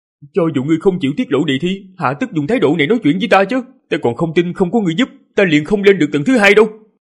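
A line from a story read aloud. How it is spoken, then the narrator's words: Angry, cold, through gritted teeth. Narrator (Vietnamese): Ninh Khuyết nghe như vậy thì giận dữ, nghiến răng lạnh giọng nói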